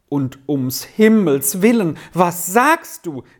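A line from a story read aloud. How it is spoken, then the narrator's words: Terrified mother's exclamation. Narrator (German): rief die Mutter im höchsten Schrecken aus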